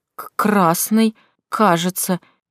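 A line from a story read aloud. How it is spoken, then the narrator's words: Uncertain reply. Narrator (Russian): неуверенно ответил Майс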